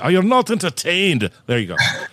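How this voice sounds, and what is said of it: Put-on Scottish accent. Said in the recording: “I almost did that in an, in a Scottish accent. I was going to mix it.”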